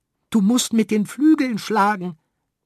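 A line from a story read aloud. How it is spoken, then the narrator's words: Earthworm pleading urgently. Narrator (German): flehte der Regenwurm, weil sie ungebremst aufzuprallen drohten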